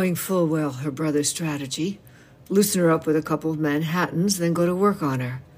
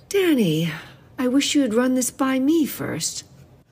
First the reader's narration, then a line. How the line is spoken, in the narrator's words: Her tone was gentle, and she kept it that way when she turned from Laura to her brother and said